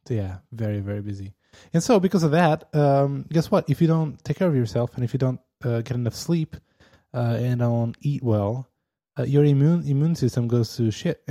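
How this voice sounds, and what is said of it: Slightly rough, sore-throated voice. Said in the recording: “maybe you can hear that in my voice. My throat starts to you know, hurt a little bit.”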